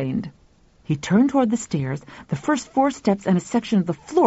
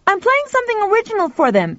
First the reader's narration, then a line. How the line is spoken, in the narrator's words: Pal shouted back